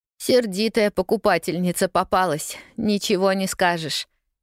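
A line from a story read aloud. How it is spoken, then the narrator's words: Nervous laugh. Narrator (Russian): нервно хохотнула Полианна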